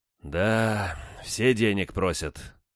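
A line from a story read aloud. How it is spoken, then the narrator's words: Sighing. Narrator (Russian): вздохнул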